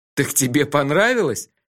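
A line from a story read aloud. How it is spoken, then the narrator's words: Moaning with laughter. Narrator (Russian): Я уже стонал от смеха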